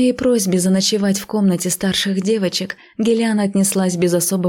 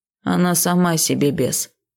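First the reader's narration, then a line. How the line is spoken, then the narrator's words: Tired. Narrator (Russian): устало произнес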